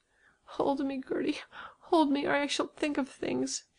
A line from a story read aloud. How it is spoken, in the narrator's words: she moaned